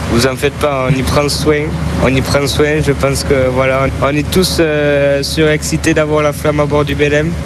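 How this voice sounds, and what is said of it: Southwestern French accent from Gers. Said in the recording (French): “on l'entend à votre accent, vous êtes du Gers”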